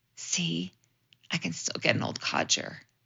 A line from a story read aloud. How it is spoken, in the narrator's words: whispered to me